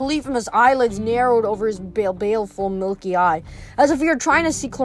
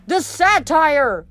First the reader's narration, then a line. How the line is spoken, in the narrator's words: Clarice yelled